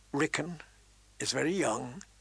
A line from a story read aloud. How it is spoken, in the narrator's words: he said gently